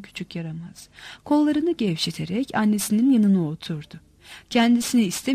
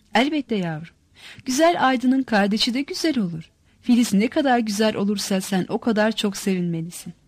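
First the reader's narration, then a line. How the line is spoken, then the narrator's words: Laughing. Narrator (Turkish): gülerek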